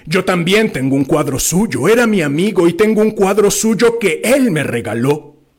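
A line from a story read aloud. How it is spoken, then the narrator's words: Shouting. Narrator (Spanish): gritaba Drioli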